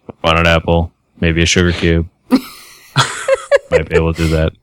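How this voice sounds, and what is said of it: Low monotone smooth radio voice. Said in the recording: “Horses enjoy the monotone voice. As low as you can do it. ... Why does your horse voice sound a lot like, you know, smooth radio?”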